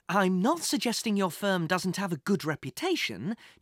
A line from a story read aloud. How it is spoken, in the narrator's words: Jack said soothingly